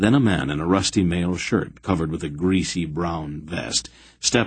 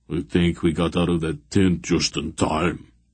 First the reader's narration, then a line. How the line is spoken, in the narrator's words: Barak muttered